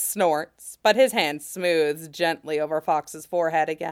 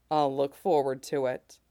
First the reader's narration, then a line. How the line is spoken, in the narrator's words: says gravely